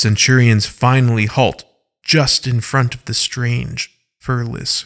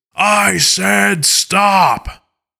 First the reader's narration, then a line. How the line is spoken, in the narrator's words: Alpha Kaiden roars one last time in his loudest voice